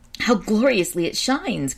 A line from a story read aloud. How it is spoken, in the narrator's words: cried Jason in a rapture